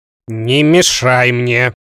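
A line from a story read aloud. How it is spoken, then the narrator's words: Angry snap. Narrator (Russian): Злобно ответил Хемуль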